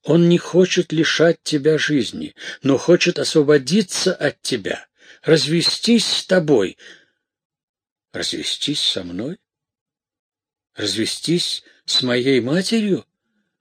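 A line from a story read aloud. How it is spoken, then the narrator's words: Exclaimed in unison. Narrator (Russian): Разом воскликнули Ипполита и Матильда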